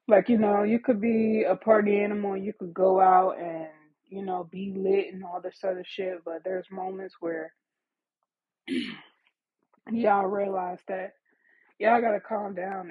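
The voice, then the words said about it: Hoarse, mostly lost voice. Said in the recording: “Excuse my voice, yo. I'm still getting over COVID, but for some reason my voice is still gone.”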